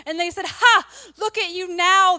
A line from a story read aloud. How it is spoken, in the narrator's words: they yelled at him